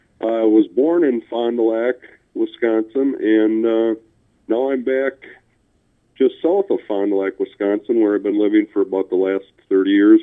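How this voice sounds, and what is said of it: Mild regional Wisconsin accent. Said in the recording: “you have a little bit of an accent ... if anybody has any trouble understanding your words”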